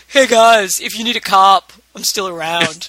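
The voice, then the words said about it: Imitates another person's voice. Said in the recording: “chime in with our Elizabeth Rome voice ... do her voice”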